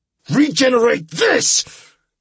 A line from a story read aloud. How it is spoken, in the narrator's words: I bellowed as I grabbed my letter opener off of my desk and stabbed it repeatedly into his chest